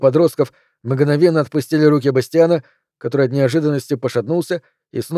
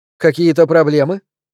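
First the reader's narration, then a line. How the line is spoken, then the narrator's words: Teacher's icy question. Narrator (Russian): ледяным тоном спросила учительница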